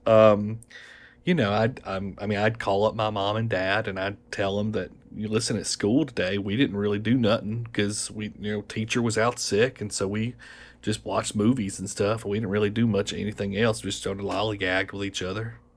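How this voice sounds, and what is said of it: Mild Southern American accent. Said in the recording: “The accent I used to have growing up, was more of your sort of classic Southern accent, Southern American accent ... It doesn't sound so heavy, really ... It's kind of middle of the road.”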